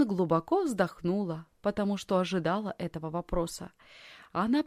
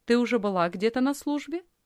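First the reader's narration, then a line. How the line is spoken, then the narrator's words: Plain. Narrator (Russian): спросила женщина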